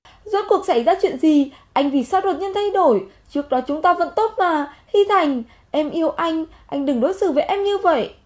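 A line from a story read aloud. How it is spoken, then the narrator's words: Loud. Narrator (Vietnamese): Cô ta lớn tiếng nói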